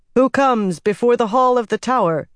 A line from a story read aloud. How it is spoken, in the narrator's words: asked in a ringing voice